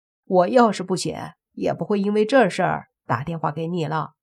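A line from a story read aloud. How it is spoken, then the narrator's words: Laughing. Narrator (Chinese): 莫凡笑着说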